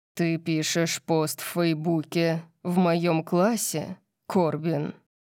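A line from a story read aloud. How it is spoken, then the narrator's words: Terrifying growl. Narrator (Russian): Орион зарычал, и веселье в комнате было полностью уничтожено его ужасающим тоном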